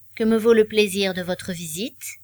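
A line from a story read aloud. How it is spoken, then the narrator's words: Neutral tone. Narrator (French): demanda-t-il d'un ton neutre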